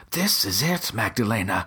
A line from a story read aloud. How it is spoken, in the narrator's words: gasped